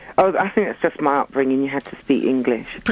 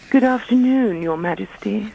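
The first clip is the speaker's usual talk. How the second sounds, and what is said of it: Put-on posh English voice. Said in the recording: “Can you talk a bit posher? ... Do a posh voice ... Oh, she's good.”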